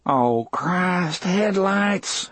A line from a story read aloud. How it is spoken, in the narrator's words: Harry moaned